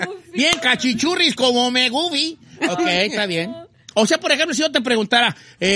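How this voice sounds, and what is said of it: Usual voice. Nothing is said of it.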